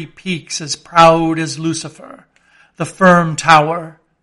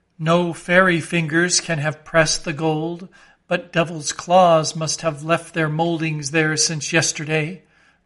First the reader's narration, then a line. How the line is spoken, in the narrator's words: murmured Starbuck to himself